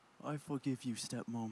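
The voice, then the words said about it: Put-on English accent. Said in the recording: “in a beautiful English accent. Can you reenact that? ... That's so good, so good, so good.”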